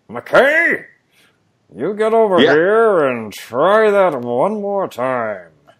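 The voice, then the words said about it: Imitates another person's voice. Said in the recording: “my Del Close impression ... Still iffy ... That's pretty much it, with a little bit more, like, Larry King ... a lot more cigarettes involved”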